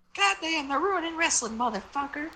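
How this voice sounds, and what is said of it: Jim Cornette impression. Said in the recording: “do a Jim Cornette impression”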